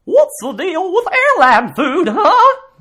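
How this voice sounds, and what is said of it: Imitates another person's voice. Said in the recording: “Jerry Seinfeld doing an impression of Don Knotts”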